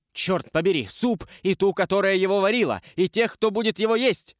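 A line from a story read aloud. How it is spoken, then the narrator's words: Furious shout. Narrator (Russian): с бешенством крикнул дядюшка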